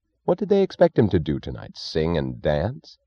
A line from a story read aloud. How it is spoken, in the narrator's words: He snapped the question angrily